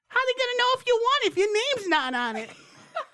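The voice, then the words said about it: Imitated mother, Brooklyn accent. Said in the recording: “That's exactly what my mother sounds like... I don't know where she got the Brooklyn accent”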